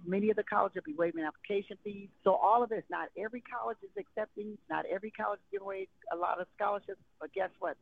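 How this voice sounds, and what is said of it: Excited, animated speaking. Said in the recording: “why I sound so excited ... I'm so excited”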